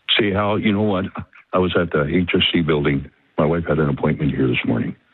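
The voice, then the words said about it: Deep voice. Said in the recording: “deep voice.”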